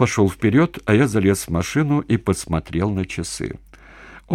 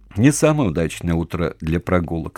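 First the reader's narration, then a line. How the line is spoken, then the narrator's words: Plain. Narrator (Russian): сказал он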